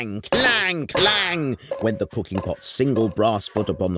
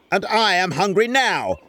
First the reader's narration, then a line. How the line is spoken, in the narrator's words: roared the wizard